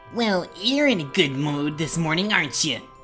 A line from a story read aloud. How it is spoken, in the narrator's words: snarled with a sneer